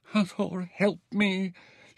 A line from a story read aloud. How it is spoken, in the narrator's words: pleaded